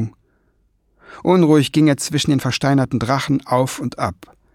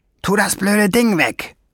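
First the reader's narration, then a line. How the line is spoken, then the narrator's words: Growling. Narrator (German): knurrte Schwefelfell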